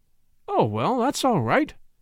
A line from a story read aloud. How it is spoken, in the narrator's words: exclaimed the young man cheerfully